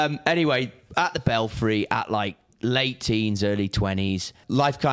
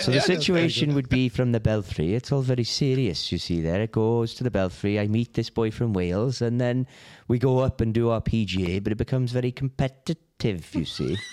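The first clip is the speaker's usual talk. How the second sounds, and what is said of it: Put-on Welsh accent. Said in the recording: “one of my best mates is Welsh ... I can definitely put a good accent on ... do an accent now ... It's excellent.”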